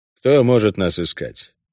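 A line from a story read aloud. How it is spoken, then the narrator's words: Muttered. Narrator (Russian): пробормотал я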